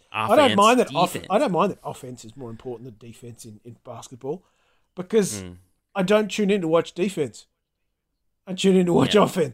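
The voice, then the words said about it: Antipodean accent. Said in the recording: “a sensible Antipodean accent”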